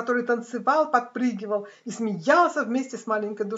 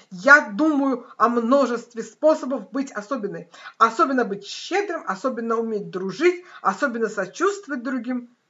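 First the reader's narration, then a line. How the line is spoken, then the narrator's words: Exclaiming after pause. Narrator (Russian): Маленькая душа промолчала мгновение, а потом воскликнула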